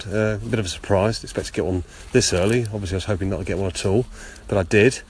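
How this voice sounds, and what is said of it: Congested voice with a cold. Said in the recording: “I've got a bit of a cold ... A bit of a sore throat”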